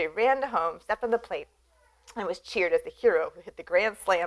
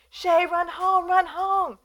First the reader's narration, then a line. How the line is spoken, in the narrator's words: the boys from both teams and the spectators were screaming